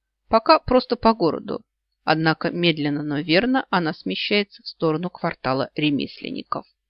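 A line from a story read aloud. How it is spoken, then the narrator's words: Plain. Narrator (Russian): ответил Олли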